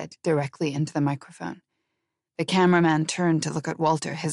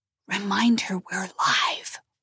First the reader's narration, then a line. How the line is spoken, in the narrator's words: Walter hissed at him